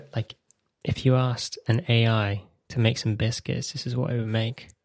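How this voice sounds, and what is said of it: Speaks quietly. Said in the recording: “I'm going to say this a bit quietly ... Let's say this quietly.”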